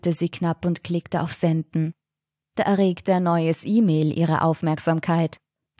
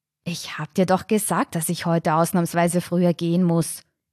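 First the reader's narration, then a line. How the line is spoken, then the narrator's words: Angry hiss. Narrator (German): zischte sie wütend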